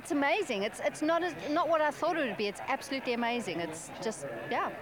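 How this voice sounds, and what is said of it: South African accent. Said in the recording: “I love the South African accent.”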